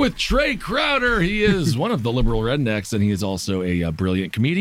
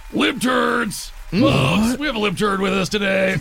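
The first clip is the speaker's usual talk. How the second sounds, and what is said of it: Imitates another person's voice. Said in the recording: “my Alex Jones impression”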